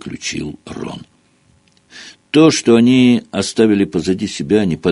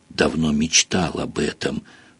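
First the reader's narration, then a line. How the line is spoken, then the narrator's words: Whisper in ear. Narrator (Russian): прошептал Рон в ухо Гарри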